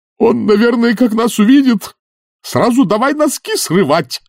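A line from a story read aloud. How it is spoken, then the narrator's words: Howling wail. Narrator (Russian): взвыл старший ренглер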